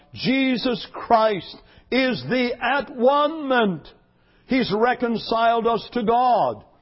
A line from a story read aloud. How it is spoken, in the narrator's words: he stood up and he cried out